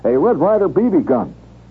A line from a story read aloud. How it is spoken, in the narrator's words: Horrified, blurt